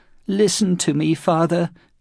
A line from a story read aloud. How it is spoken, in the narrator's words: Kichijiro whimpered in a voice that the other Christians could hear